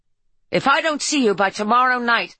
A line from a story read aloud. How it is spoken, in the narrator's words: Harper shouted at him